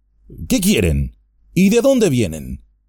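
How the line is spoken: Harsh questioning tone. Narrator (Spanish): preguntó con tono áspero

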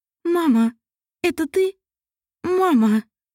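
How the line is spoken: Sobbing, tearful cry. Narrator (Russian): Или не всхлипнула и, не удерживая слезы, заплакала

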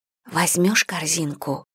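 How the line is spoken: Whispered request. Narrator (Russian): шепотом прошу я Седрика

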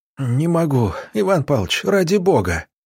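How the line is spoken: Moaning, stumbling. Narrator (Russian): простонал Роман Романович, спотыкаясь о корень и едва не падая

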